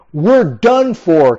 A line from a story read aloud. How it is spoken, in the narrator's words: King Joram exclaimed